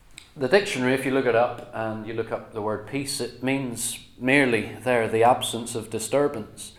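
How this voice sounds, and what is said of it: Northern Irish accent. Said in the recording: “You can tell by my accent, I grew up in an area of the United Kingdom ... I moved across to England from Northern Ireland”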